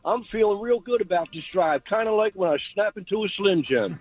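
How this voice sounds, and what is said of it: Imitates another person's voice. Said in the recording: “That's the best impression you're ever going to get from me.”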